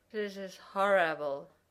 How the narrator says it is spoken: Jack slurred during the fourth quarter

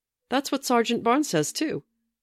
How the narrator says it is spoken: Peter said cheerfully

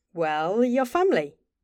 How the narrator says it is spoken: Bobby answered, smiling brightly

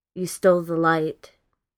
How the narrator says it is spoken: Adam tells him in a completely detached voice

